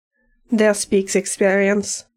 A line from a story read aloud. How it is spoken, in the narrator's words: Aiden says, chuckling